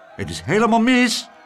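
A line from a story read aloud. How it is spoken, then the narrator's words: Called out. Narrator (Dutch): riep Klaterhoen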